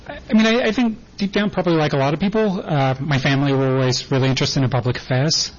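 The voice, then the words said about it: English accent. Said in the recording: “I grew up in England. It's probably somewhat noticeable from my accent.”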